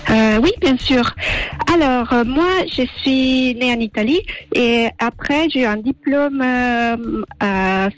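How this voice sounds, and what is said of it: Slight Italian accent in French. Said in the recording (French): “qui a un petit accent aussi ... je viens d'Italie, Sardaigne exactement”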